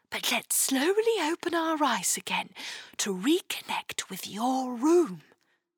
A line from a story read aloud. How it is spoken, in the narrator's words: whispered the star